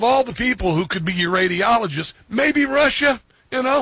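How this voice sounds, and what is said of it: Usual voice. Nothing is said of it.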